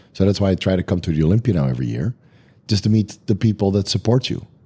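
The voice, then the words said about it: Very raspy, strained voice. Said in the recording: “my voice is terribly raspy... I've been talking at the Olympia for 4 days straight... my voice got worse and worse and worse”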